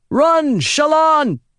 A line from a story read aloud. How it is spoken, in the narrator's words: Adolin shouted